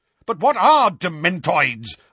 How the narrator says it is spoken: asked Uncle Vernon furiously

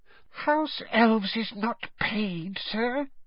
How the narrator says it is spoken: she said in a muffled squeak

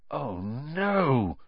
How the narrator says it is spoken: Ron gasped

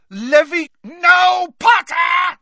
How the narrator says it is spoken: screamed Snape

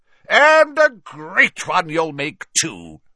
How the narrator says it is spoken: boomed Slughorn

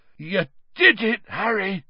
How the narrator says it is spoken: said Hagrid hoarsely

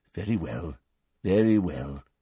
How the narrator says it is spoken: said the old wizard gently

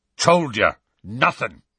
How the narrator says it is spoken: said Hagrid firmly

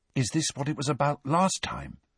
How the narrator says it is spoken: said Ron in a hushed voice

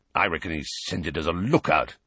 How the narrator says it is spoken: growled Moody

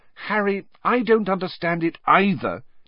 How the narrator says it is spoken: said Hermione desperately

